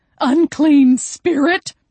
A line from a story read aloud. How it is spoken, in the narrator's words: Ruthie gasped